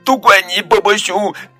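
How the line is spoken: Crying sadly. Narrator (Chinese): 他伤心的哭了起来

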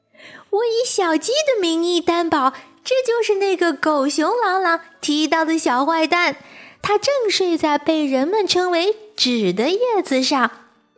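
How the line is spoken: Chicks shouting loudly. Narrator (Chinese): 小鸡们大声喊道

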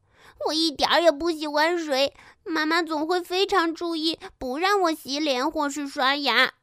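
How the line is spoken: Crying. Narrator (Chinese): 莫娜哭着说

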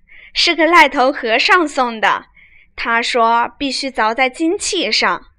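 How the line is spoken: Laughing. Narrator (Chinese): 婴儿笑道

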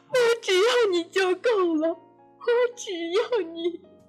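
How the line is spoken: Crying, overwhelmed mother. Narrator (Chinese): 姬和的母亲再也忍不住，一边哭一边说道

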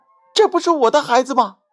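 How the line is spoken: Surprised cry. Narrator (Chinese): 只听他惊奇的呼叫道

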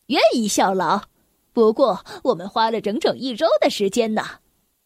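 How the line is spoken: Laughing. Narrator (Chinese): 不可能先生笑着说

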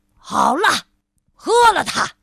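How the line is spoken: Wizard speaking loudly. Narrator (Chinese): 巫师大声的说道

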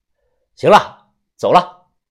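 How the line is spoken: Loud. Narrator (Chinese): 大声的说

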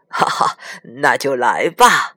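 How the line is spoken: Laughing old man. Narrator (Chinese): 爷爷笑着 说

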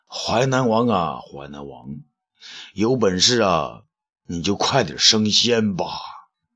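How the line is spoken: Long lamenting sigh. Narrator (Chinese): 东方朔仰天长叹

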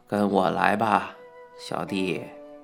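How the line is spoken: Sighing old monk. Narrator (Chinese): 老和尚叹了一口气，说道

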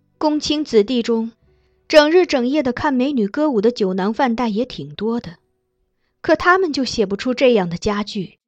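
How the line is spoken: Sighing. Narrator (Chinese): 公主叹道

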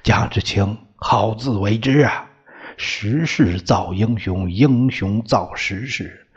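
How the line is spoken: Admiring sigh. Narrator (Chinese): 教官不禁感叹道

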